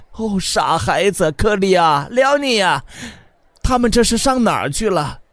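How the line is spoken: Panicked cry. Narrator (Chinese): 他忽然惊慌的叫喊起来

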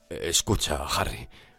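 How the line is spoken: Very quiet voice. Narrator (Spanish): dijo en voz muy baja

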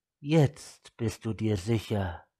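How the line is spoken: Gentle. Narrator (German): sagte sie sanft

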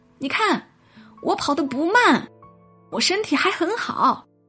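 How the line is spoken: Sudden loud. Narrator (Chinese): 突然回头大声说

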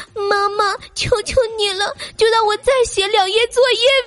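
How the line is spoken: Slightly tearful pleading. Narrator (Chinese): 他都会略带哭腔，可怜巴巴的对我说

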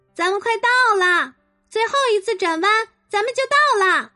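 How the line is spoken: Urgent shouting. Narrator (Chinese): 马蒂娜叫着

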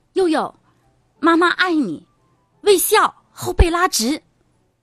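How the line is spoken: Loud shouting. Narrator (Chinese): 我就大声的喊

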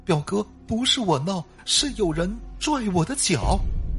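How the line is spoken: Crying. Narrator (Chinese): 表弟这时候却哭着说

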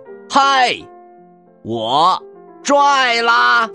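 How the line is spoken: Shouting. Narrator (Chinese): 他大叫道

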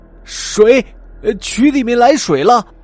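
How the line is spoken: Startled loud cry. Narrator (Chinese): 有人像被蝎子蛰了一样，大声叫了起来

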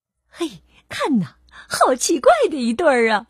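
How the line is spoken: Mocking laughter. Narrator (Chinese): 长颈鹿们开始嘲笑起来

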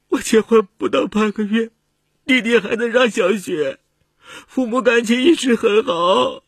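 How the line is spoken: Crying. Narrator (Chinese): 他哭着说

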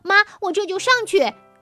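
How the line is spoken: Happy loud answer. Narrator (Chinese): 东东开心的不得了，大声回答

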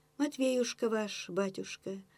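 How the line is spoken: Detached singsong voice. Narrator (Russian): пропела она отрешенным голоском

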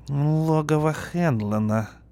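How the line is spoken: Muttered through teeth. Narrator (Russian): пробурчал сержант сквозь зубы

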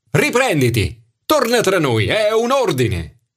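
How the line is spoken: Shouted. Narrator (Italian): Sara urlò

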